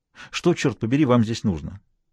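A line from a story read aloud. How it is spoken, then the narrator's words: Sharp question. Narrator (Russian): резко спросила она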